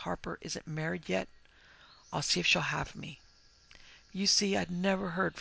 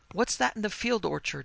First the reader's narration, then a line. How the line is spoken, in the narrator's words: demanded Henry in a startled tone